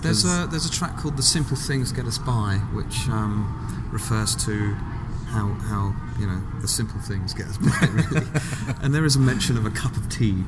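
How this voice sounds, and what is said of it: British accent. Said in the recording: “Just the accent, but you kind of pull the British into the lyrics.”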